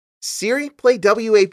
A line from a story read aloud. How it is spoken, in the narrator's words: she called out in desperation